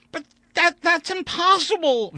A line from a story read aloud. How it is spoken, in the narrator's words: Vandeleur exclaimed